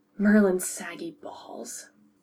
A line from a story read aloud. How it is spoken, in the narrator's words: Remus muttered quietly